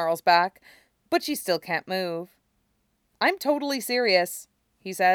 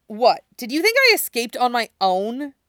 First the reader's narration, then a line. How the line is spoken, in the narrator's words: Cora snaps at him